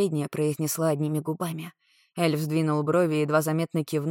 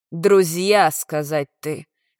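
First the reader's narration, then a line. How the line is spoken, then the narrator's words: Growl. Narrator (Russian): рыкнул Валих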